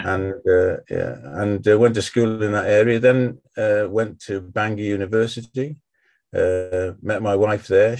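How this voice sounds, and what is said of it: North East Welsh accent, Liverpool-like. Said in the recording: “I'm from North Wales, North East Wales ... people find it difficult to place my accent ... they sometimes think I'm Liverpudlian”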